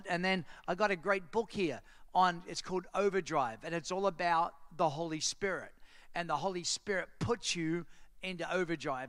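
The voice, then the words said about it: Australian accent. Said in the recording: “You have an accent... as soon as I open my mouth, say, Where are you from? And I say, Australia.”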